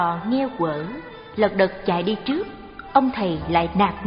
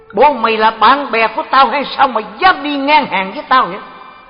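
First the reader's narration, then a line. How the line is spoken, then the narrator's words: Angry shout. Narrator (Vietnamese): ông liền trợn mắt quát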